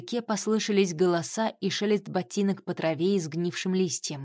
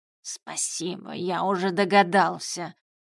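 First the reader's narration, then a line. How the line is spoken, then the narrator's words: Grumbling. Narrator (Russian): ворчал магический кот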